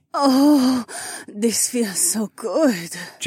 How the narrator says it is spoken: Jessamine whimpered

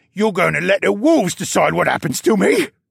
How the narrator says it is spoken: Luca shrieked

